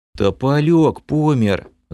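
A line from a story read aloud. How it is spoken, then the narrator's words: Sighing. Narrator (Russian): Вздохнул лысый эльф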